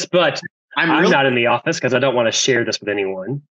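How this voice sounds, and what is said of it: Sick, clogged-throat voice. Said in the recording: “you sound a little like a strange ... I sound like a sick cow is what I sound like ... my throat has been clogged and I've been coughing”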